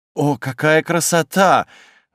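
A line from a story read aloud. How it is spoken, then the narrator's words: Daughter's admiring breath. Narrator (Russian): восхищенно выдохнула дочка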